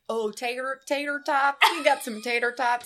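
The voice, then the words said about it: Put-on American accent. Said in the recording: “That's a great American accent.”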